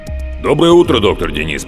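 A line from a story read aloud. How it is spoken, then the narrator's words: Deep bass voice. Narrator (Russian): пробасил голос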